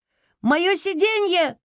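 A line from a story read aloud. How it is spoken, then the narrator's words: Girl shouting. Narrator (Russian): закричала девочка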